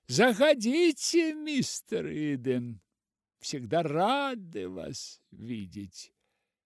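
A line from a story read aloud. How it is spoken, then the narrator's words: Cheerful shouting after someone. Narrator (Russian): весело кричали ему вдогонку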